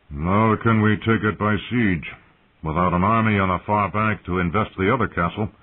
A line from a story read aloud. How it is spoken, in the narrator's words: Helmin Tallheart said gloomily